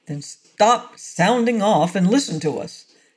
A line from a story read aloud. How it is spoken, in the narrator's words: snapped Peter